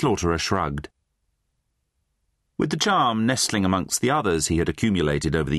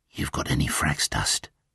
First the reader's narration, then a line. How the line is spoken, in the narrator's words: the slaughterer added in a conspiratorial whisper